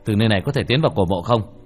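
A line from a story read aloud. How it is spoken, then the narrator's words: Cold question. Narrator (Vietnamese): Âm thanh của Tiểu Thất lạnh lùng hỏi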